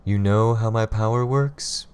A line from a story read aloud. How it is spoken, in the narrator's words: Calvert sighed